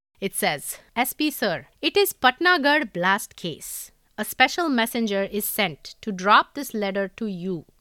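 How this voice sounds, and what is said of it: Indian English accent. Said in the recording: “read this in your most regional Indian accent ... I'm going to do this in an Indian English accent, okay? Which is my normal accent when I'm not trying to do the American one ... This is how I would speak in India.”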